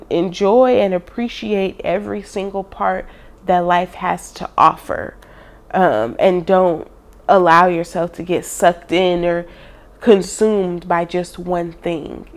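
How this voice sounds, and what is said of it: Stuffy, congested voice. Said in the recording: “my voice is a little stuffy”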